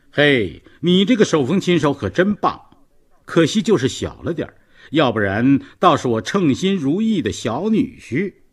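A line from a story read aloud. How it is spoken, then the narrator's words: Loud laughter. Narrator (Chinese): 大声笑着说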